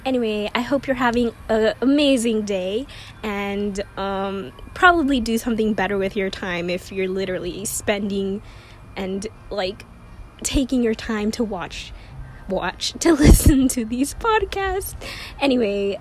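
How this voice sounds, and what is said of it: Voice sounds bad, strained. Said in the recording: “my voice is really bad.”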